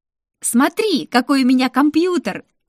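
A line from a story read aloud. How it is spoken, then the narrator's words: Squealing. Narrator (Russian): С визгом я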